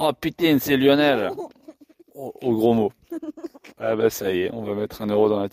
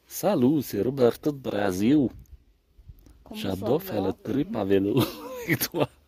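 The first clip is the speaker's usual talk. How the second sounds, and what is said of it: Put-on Brazilian accent. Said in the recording (French): “tu connais l'accent brésilien”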